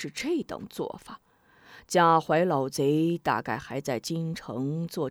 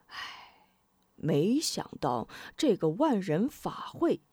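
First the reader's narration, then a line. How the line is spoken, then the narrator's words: Sighing. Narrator (Chinese): 童阳真人叹道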